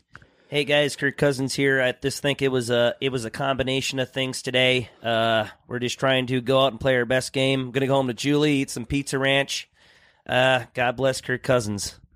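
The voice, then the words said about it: Imitates another person's voice. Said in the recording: “Do the accent ... Dude, that's good. I'd say it's a 10. There's nothing wrong with it. I loved it. Like, if I looked the other way, I'd be like, holy shit. That's pretty good.”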